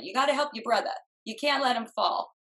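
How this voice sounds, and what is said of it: Put-on Brooklyn accent. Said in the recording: “a Brooklyn accent”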